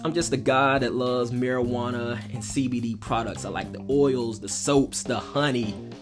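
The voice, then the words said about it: Southern American drawl. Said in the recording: “I'm from somewhere in the South, if you can hear that southern drawl in my voice”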